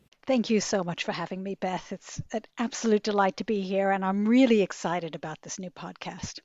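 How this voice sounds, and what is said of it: Hybrid New York-Australian accent. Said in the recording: “you've got a bit of a hybrid accent there. You were born and grew up in New York... in Australia”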